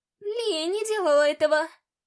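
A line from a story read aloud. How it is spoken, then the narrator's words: Blurted out tearfully. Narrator (Russian): выпалила Талия сквозь слезы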